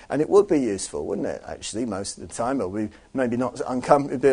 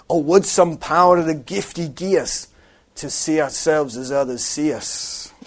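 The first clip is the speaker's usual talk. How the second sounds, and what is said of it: Attempted Scottish accent quoting Robert Burns. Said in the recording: “Robert Burns, I tried to do the accent”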